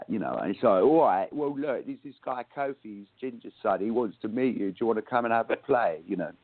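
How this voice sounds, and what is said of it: Put-on London Cockney accent. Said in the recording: “I'll try and do the accent... it's like the London, Cockney”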